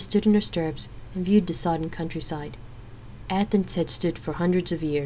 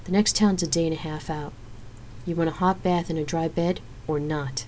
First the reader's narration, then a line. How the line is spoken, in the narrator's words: Xena asked in a reasonable tone